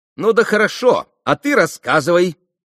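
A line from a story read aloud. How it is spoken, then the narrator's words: Shout. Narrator (Russian): крикнула Грушенька Максимову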